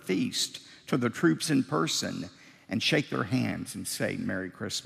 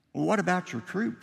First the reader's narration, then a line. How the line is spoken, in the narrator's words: Schwarzkopf said